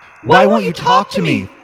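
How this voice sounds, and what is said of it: Little girl voice, demanding tone. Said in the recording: “The little girl voice asked again in a demanding tone.”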